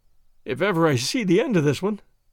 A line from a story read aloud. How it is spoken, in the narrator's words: I groaned